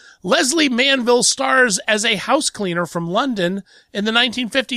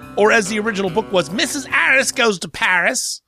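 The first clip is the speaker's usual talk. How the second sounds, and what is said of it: Bad put-on British accent. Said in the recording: “the worst British accent I think ever performed on radio in the history of the world”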